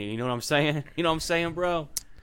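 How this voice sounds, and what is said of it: Slight put-on hip slang accent. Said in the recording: “I'm trying to influence a little, I guess, a little accent to be more hip with the”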